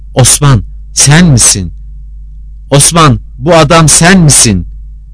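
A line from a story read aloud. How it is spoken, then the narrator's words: Sultan shouting. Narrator (Turkish): diye bağırdı sultan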